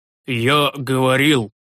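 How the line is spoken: Wheezing old priest. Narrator (Russian): просипел седой священник

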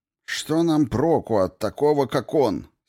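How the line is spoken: Angry question. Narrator (Russian): сердито спросил Иналуки

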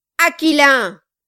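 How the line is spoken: Shouting. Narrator (French): cria Kilp

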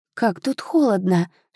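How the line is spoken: Shivering whisper. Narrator (Russian): шепнула Ханна, поежившись

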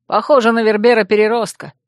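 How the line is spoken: Snorting chuckle. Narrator (Russian): хмыкнул его приятель

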